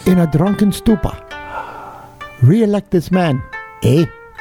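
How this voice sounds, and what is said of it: Bugs Bunny-ish Japanese accent, Kung Fu master. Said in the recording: “the authentic Bugs Bunny-ish Japanese accent ... It's actually the guy from Kung Fu ... the guy he used to walk with ... He used to instruct him, was blind.”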